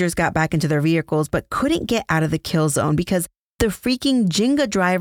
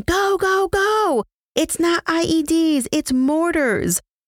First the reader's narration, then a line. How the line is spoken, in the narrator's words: Sergeant Cadet got on the radio yelling